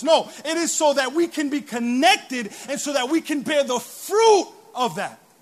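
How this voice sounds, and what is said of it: Loud, excited shouting. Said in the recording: “sorry I'm screaming. I'm just excited.”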